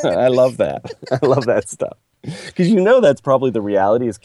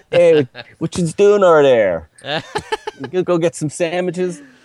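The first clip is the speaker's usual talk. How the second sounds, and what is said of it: Put-on Pittsburgh accent. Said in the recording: “I start talking like Pittsburghers when I'm back amongst my people”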